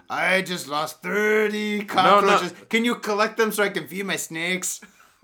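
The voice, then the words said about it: Badly done put-on accent. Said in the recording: “I know, my accent's terrible.”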